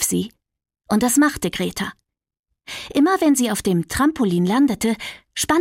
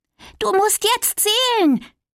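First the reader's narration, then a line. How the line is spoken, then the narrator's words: Calling out. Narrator (German): rief sie zu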